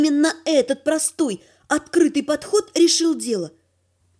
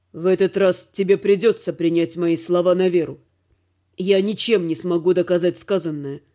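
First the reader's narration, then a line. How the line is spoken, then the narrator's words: Completely calm. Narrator (Russian): совершенно спокойно сказал Дима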